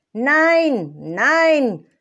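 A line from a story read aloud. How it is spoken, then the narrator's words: Calling again. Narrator (German): rief noch einmal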